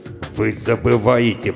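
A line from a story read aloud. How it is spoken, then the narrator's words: Growled. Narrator (Russian): прорычал полковник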